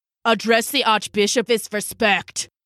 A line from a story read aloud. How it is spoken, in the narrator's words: snapped Hans